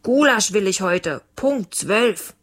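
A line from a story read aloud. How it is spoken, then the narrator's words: Father calling after someone. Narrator (German): Leons Papa rief ihm nach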